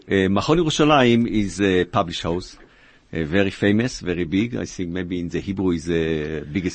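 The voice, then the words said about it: Israeli-accented English. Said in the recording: “I speak in my English and the accent, the Israeli accent.”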